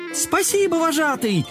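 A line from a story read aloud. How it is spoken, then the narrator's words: Chorus of exclamations. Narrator (Russian): хором воскликнули котята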